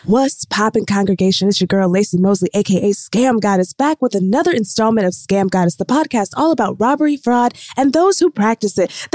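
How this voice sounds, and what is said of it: NPR-style public radio voice. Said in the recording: “my NPR voice”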